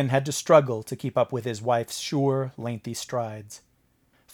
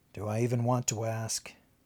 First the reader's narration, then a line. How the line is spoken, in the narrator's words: muttered